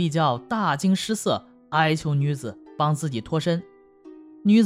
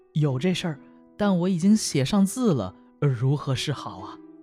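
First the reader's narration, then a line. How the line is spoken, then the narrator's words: Plain. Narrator (Chinese): 说着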